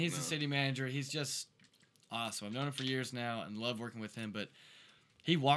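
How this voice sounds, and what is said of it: Usual voice. Nothing is said of it.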